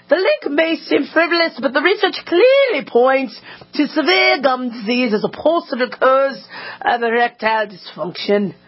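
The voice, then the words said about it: Put-on British accent. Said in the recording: “I need to do this in a British accent.”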